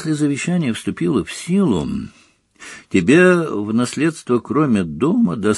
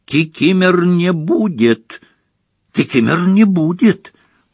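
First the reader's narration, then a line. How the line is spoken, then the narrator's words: Loud hoarse rasp. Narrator (Russian): прохрипел домовик так же громко, как и дядя Вернон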